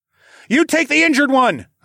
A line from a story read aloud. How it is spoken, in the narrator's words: yelled